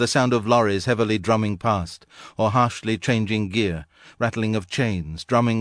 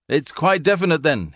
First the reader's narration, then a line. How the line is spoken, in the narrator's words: he bawled